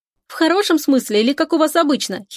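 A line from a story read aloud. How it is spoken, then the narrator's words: Giggling. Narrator (Russian): хихикает подруга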